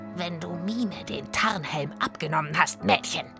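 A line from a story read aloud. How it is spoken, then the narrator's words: Croaking voice. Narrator (German): krächzte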